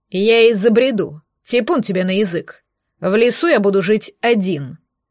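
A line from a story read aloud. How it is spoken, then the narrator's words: Growling. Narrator (Russian): рыкнул Влад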